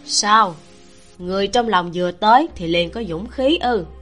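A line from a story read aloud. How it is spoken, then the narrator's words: Intimate yet cold, close. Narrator (Vietnamese): ái muội lại lạnh lẽo nói ở bên tai nàng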